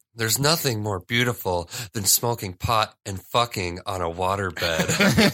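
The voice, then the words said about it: Imitates a movie character's voice. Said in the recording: “this is my impression, though, because I've actually said this line a lot, how the girl says it.”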